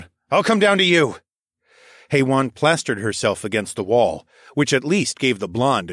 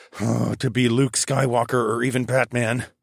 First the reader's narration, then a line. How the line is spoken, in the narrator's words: I muttered